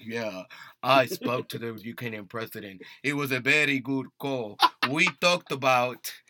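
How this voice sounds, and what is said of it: Put-on Russian-sounding, Dracula-like accent. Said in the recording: “I don't know why it sounds Russian. ... You sound like fucking Dracula from Spain or something.”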